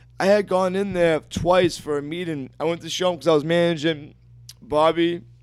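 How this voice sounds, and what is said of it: Strained, hoarse, failing voice. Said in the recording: “I'm losing my voice now.”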